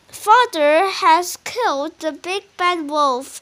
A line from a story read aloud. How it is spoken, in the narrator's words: she said